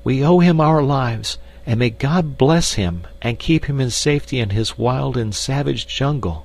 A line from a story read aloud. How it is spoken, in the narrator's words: cried the girl